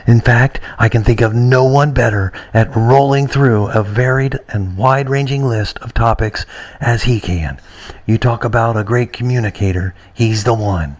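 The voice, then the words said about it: Ronald Reagan impression. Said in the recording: “this is former President Ronald Reagan ... some love from our talkback guy from former President Reagan”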